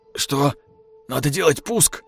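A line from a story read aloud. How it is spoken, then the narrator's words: Frightened question. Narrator (Russian): испуганно спросил прапорщик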